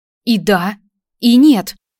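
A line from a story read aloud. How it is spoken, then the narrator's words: Confused drawl. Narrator (Russian): растерянно протянула Майя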